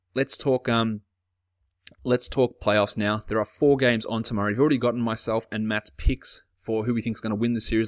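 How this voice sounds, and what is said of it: Australian accent. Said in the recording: “If you like one Australian accent, I'm sure you love three of them”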